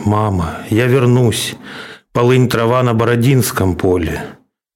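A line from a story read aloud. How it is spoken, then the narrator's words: Quiet echo. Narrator (Russian): тихо вторит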